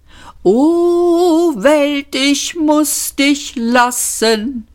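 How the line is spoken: Nasal whimper. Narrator (German): wimmerte er nasal

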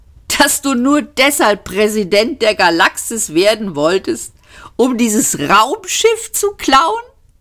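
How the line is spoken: Laughing. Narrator (German): lachte er

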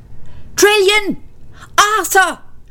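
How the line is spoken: Shouting. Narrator (German): schrie er

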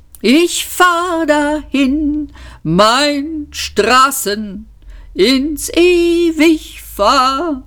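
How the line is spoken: Wailing lament. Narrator (German): jammerte Eddie

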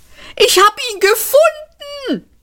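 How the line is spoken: Shouted. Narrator (German): schrie Seyfort

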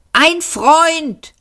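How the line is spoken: Shouting back. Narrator (German): schrie zurück

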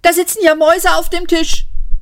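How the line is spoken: Shout. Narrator (German): rief

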